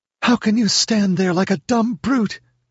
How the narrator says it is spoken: She screamed in a ghastly whisper

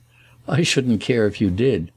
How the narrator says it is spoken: he laughed

